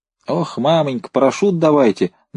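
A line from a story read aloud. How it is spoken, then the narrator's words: Clowning shout. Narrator (Russian): дурашливым голосом закричал Лотков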